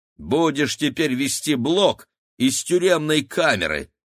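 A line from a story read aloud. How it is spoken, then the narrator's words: Plain. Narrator (Russian): сказал ей Игорь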